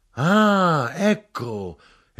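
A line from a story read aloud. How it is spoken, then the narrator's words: Several voices exclaiming. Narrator (Italian): esclamarono i miei interlocutori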